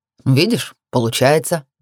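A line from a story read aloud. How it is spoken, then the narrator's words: Slightly mocking snort. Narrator (Russian): хмыкнул чуть насмешливо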